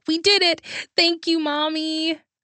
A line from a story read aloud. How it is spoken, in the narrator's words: while squealing